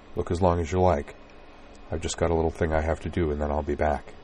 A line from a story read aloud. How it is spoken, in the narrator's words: said softly